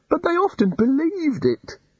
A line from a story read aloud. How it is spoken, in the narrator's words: the god almost wailed